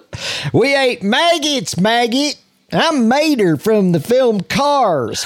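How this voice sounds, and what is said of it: Cartoon character Southern accent. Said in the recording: “That's a really great Mater... it is a Southern accent, but it's a specific type”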